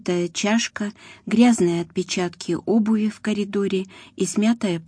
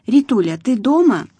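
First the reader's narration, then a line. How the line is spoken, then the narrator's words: Loud question. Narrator (Russian): громко спросила Ася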